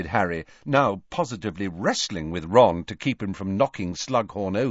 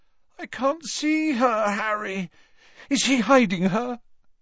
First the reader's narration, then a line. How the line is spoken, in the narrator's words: Ron chose this moment to moan